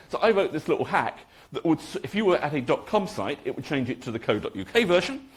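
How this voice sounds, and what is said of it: English accent. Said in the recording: “as you can probably tell from my accent, I am English.”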